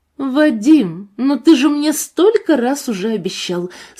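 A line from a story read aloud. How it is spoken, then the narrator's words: Indignant young woman exclaiming. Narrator (Russian): с нотками возмущения в голосе воскликнула девушка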